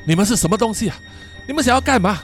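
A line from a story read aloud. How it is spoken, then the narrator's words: Terrified shout. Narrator (Chinese): 詹姆斯恐惧的对着那些东西大喊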